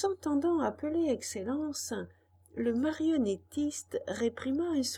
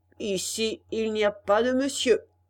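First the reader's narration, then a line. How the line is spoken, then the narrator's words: Harsh retort. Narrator (French): répliqua durement le marionnettiste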